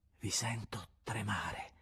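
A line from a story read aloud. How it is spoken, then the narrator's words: Soft, sweet, strange tone. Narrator (Italian): in atto di somma dolcezza diceva piano, con un accento indefinibile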